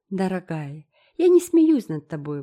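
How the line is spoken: Remorseful exclamation. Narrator (Russian): воскликнула Энн с раскаянием

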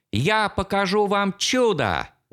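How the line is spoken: Shout. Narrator (Russian): выкрикнул

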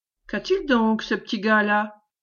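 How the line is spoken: Plain. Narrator (French): demanda la métayère

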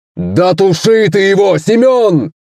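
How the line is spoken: Sharp shout. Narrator (Russian): Резко крикнул еще один камикадзе

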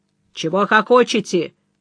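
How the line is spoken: Menacing question. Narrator (Russian): грозно вопросил Хофф

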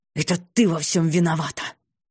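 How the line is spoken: Irritated hiss. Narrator (Russian): раздраженно прошипев

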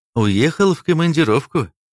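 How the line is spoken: Sad. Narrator (Russian): печально сказал Стас

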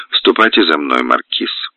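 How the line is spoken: Dry, stern. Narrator (Russian): Принцесса сухо и строго обращается к де Марину

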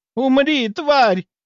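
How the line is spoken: Furious scream. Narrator (Russian): заорала она

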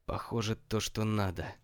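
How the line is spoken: Excited whisper. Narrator (Russian): возбужденно зашептал Коби

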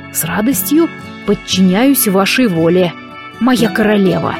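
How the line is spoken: Soft breathy intimate whisper. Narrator (Russian): Выдохнул Дарк в мои губы

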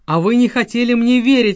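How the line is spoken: Delighted exclamation. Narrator (Russian): воскликнул Уга в восторге

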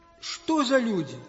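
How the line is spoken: Grumbling old man. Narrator (Russian): ворчал старичок-рыбак

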